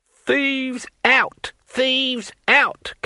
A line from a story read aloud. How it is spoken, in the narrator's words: cackled his elderly companion